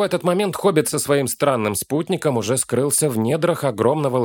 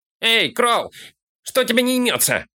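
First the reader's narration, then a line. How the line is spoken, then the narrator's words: Shouted. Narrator (Russian): крикнул Фолка караульщику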